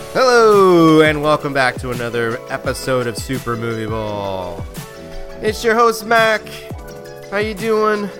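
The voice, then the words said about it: Congested, stuffy voice from a cold. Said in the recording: “because I have a cold. ... So I sound probably a little funny.”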